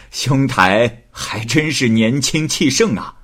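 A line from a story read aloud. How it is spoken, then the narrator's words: Laughing. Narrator (Chinese): 郎秀才……笑着说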